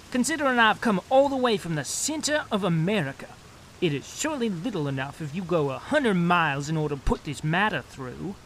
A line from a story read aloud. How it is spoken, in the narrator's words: he added hotly